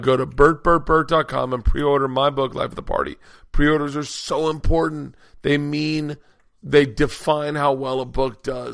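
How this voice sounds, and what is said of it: Hoarse, strained, tired voice. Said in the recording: “I am losing my voice. I'm so tired. ... Please restore ... voice”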